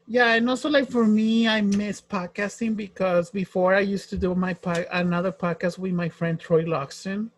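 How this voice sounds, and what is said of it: Thick Spanish accent in English. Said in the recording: “my thick accent ... here in LA, there's a lot of people that speak Spanish ... exercise my English”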